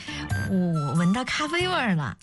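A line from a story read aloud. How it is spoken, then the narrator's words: Embarrassed laugh. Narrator (Chinese): 不好意思了，眨巴着眼睛笑道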